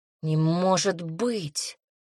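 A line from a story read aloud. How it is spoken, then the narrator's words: Breathless disbelief. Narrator (Russian): выдохнула, не веря своим ушам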